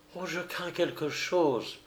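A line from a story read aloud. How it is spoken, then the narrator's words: Murmured. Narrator (French): murmura Oulana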